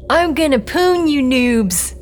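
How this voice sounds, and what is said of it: Deliberately bad imitation of another's voice. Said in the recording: “her very best Dante impersonation, which was, it turned out, extremely bad.”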